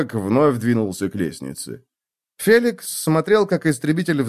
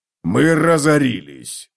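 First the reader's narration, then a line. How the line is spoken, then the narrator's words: Barked. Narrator (Russian): рявкнул Готрек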